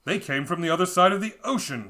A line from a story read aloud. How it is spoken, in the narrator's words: he exclaimed